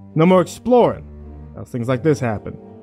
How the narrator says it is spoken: he said sharply

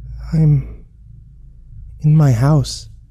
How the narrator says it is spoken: mumbled

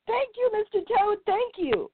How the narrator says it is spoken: he shouted

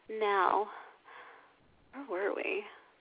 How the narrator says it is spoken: Petra purrs distractedly

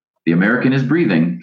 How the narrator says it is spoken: someone said

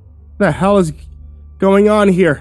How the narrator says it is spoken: I stammered

